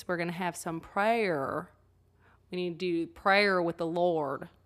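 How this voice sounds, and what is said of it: Imitated strong Southern accent. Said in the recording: “She also has a very strong Southern accent. So when she talks like this.”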